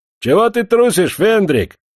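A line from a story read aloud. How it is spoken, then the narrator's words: Sudden shout. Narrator (Russian): крикнул вдруг Бек Агамалов на подпрапорщика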